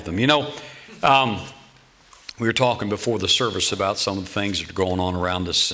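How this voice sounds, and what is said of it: Slightly rough, hoarse voice. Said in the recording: “my voice is a little bit rough this evening... a little bit of a rough voice”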